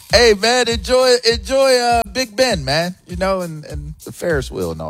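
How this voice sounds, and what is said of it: Bad put-on accent. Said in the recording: “That is such a bad accent. It's offensive.”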